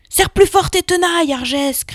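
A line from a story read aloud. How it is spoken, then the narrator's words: Shouted. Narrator (French): cria l'autre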